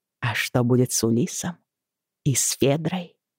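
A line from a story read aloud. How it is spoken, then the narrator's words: Quiet question. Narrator (Russian): тихо спросила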